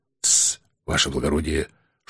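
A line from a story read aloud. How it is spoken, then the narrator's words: Whispered warning. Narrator (Russian): шепотом предупредил он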